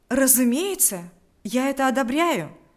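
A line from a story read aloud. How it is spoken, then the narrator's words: Eager exclamation. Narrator (Russian): воскликнул с готовностью Павел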